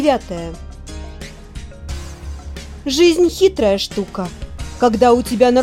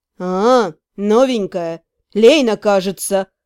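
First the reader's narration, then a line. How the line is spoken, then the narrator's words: Muffled reply. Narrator (Russian): глухо отозвался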